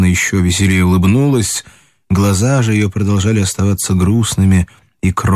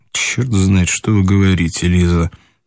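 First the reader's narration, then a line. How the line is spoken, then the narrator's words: Muttered, head down. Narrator (Russian): пробормотал он, не поднимая головы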